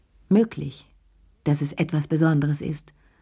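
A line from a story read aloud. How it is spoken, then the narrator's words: Firm voice. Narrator (German): sagte sie mit fester Stimme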